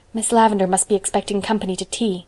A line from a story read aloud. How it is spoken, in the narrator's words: she whispered